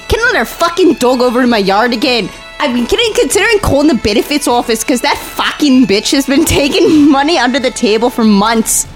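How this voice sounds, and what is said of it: Attempted Scottish accent. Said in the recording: “Scottish is good, too. Scottish is different. ... Can you do Scottish?”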